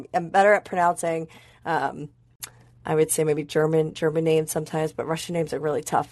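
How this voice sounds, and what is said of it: American accent. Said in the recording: “my crazy American accent”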